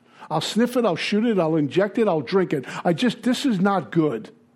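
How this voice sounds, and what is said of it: Brooklyn accent. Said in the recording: “I sound like a Neanderthal because I'm from Brooklyn ... They talk different”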